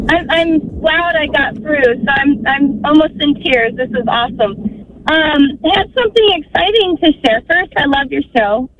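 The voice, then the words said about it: Happy-sounding voice. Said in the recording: “You sound happy.”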